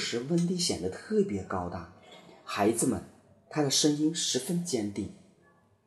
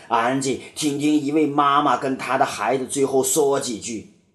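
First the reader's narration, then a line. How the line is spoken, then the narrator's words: Roaring. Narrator (Chinese): 霍克咆哮着说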